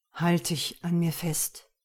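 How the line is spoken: Low murmur. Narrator (German): raunte

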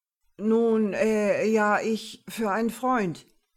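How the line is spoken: Stammer. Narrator (German): stotterte

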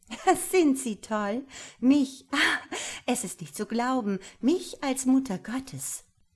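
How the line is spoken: Laughing exclamation. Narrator (German): rief sie und lachte wieder

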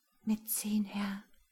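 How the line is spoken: Throat-clearing, quiet. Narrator (German): Jasmina räusperte sich und sagte leise

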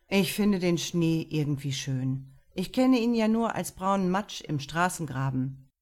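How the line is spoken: Sighing confession. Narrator (German): Mit einem Seufzer gestand Lukas

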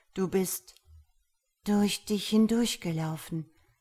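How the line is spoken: Flat toneless voice. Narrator (German): beendete Gabriella an seiner Stelle mit tonloser Stimme den Satz

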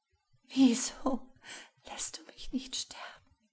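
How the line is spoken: Pleading. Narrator (German): flehte Lisa

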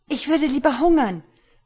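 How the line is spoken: Woman interrupting, calling out. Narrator (German): rief eine Frau dazwischen

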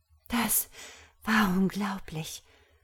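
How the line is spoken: Murmured. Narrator (German): murmelte Ella

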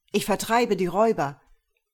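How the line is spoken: Calling out. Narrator (German): rief

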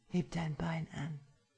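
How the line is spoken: Breathy whisper in ear. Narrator (German): hauche ich in sein Ohr

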